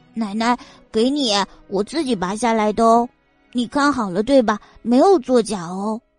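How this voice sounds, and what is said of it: Childish, babyish young voice. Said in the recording (Chinese): “小东西奶声奶气，稚嫩的声音”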